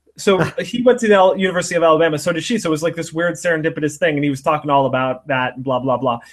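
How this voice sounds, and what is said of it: Usual voice. Nothing is said of it.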